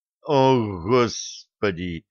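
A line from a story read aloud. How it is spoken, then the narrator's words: Silent inner groan. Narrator (Russian): мысленно простонал Булат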